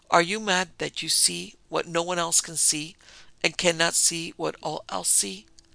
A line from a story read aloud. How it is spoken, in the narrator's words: cried her sister